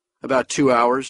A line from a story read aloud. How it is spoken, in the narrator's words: Duval said